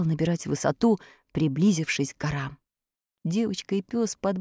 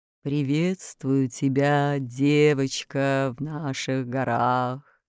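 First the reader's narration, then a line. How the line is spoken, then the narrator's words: Eagle's hoarse low voice. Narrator (Russian): отвечал орёл сиплым низким голосом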